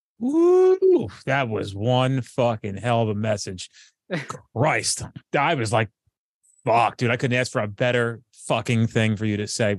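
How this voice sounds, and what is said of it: Loud New Jersey accent. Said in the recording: “Accent straight up Jersey. ... I am very Jersey and very, you know, loud”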